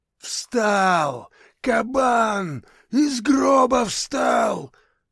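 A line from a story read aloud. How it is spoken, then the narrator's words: Yelling. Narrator (Russian): завопил первый из них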